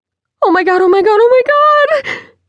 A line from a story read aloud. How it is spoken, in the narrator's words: she cried out